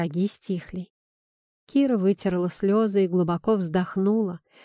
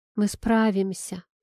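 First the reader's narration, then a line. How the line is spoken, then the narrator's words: Quiet repetition. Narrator (Russian): тихо повторила она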